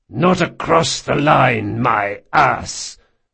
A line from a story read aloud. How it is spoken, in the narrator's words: Marcos spat